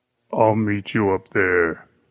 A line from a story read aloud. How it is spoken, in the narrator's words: the giant said, his voice thick with menace